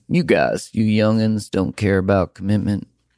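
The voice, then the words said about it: Put-on Southern US accent. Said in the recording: “I don't know why that was an accent from the South”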